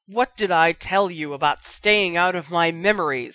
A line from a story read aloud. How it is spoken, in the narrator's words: Snape roared